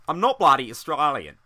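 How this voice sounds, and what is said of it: Weak put-on Australian accent. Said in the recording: “I can't even do the accent very well ... People think that you're Australian.”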